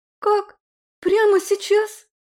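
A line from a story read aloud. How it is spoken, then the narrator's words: Nervous squeak. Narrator (Russian): пискнула Роза, взволнованно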